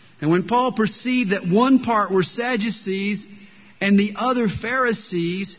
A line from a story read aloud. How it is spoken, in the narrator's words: he cried out to the council